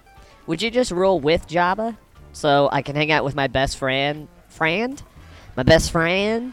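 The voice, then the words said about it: Put-on southern accent. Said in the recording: “I have a southern Jawa accent.”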